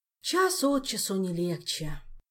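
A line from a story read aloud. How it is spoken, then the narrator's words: Sorrowful sigh. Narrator (Russian): горестно вздохнула Амарго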